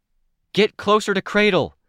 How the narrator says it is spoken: called out, my voice straining around attempted coughs

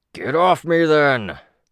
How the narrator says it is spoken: Chris boomed

